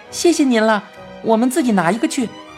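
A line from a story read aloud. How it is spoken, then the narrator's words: Cheerful, grinning. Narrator (Chinese): 陈小铁笑嘻嘻地说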